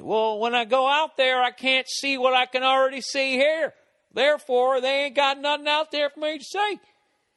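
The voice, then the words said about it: Put-on Southern accent. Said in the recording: “I shouldn't have done that in a Southern accent”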